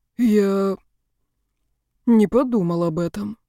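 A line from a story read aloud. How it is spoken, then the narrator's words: Mumbling, careless student. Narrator (Russian): пробормотал нерадивый студент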